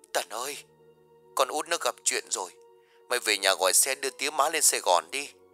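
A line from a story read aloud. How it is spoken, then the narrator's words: Tearful sobbing speech. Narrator (Vietnamese): tiếng mếu máo vừa nói vừa khóc nức lên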